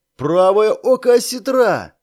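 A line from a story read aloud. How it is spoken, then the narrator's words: Joyful cry, young woman. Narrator (Russian): радостно вскрикнула девица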